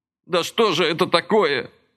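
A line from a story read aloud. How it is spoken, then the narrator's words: Tearful outcry. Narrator (Russian): плачуще выкрикнул он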